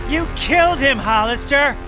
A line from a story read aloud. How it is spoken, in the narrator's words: shouted